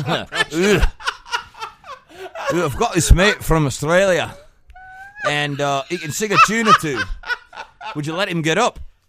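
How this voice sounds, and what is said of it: Bad put-on Scottish accent. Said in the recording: “Is that a bad Scottish impression? ... That's Barnsworthy Scottish.”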